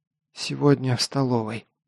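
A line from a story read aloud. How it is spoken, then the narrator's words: Whispered. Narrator (Russian): прошептала Элина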